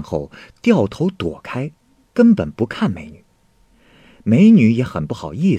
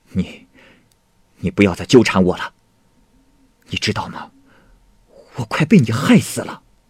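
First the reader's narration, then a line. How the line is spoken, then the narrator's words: Angry. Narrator (Chinese): 董霞思也感到了自身的危险……他愤怒的说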